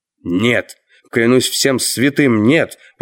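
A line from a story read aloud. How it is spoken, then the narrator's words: Exclaiming. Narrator (Russian): воскликнул Мэллоу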